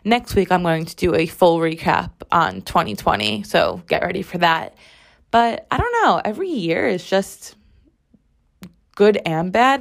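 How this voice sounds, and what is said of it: Strained, partly lost voice. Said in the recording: “my voice is a little strained and a little gone ... my voice just has taken a hit ... my throat”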